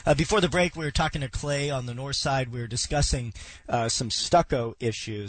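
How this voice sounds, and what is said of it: Sick, crackly voice. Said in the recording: “Excuse my voice this morning. I'm a little bit under the weather... excuse if my voice crackles or if I have to cough”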